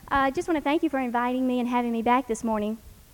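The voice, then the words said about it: Southern accent with a twang. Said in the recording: “Nice southern slang for y'all to hear this morning, nice twang to it.”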